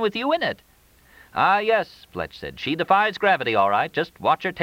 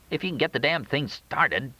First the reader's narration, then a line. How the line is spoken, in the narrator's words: Jack muttered